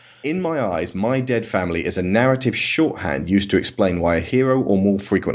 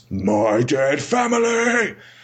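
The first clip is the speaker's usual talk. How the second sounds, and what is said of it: Gravelly, dramatic voice. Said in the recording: “delivered in that gravelly voice.”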